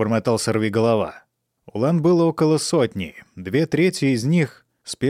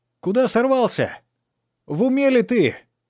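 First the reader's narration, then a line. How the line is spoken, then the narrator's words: Shout. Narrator (Russian): крикнул ему Фанфан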